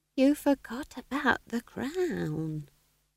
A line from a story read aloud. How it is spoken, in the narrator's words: whispered Nanny Ogg